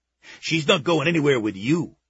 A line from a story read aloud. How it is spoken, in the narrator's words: he snapped